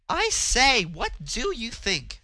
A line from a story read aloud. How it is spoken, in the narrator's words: cried a girl's voice